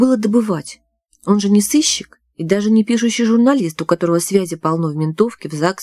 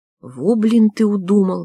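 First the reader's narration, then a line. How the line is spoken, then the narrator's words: Grumbling woman. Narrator (Russian): ворчала журналистка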